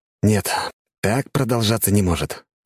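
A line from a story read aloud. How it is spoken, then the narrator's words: Sighing. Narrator (Russian): вздохнул я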